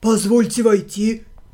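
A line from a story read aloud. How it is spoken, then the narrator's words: Deep bass voice. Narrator (Russian): пробасил он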